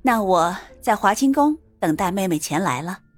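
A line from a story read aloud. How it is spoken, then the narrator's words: Composed, smiling. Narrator (Chinese): 赵云…心头震动，好半晌才稍稍平复，可他面上没有泄露半点情绪，保持微笑说道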